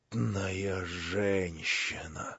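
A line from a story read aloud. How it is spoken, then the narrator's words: Pale, shaken mutter. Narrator (Russian): пробормотал тоже отчасти побледневший Афанасий Иванович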